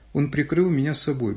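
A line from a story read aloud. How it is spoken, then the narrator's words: Plain. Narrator (Russian): говорит военкор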